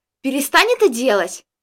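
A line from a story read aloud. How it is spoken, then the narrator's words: Angry. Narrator (Russian): Сердито взглянув на меня, произнесла Джессика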